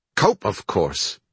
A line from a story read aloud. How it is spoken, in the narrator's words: Marsh snapped